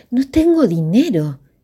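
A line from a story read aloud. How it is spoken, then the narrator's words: Dismayed exclamation. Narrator (Spanish): exclamó Dionisio al enterarse de que debía pagar el mes por adelantado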